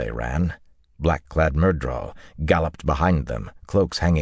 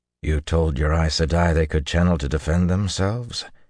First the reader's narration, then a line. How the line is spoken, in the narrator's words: he said calmly